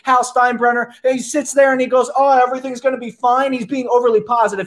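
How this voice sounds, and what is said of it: Midwestern accent. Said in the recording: “Midwest accent is beginning to get... Midwest accent, be damned”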